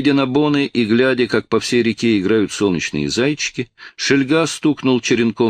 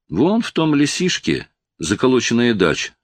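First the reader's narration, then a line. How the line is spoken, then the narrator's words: Plain. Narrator (Russian): сказал он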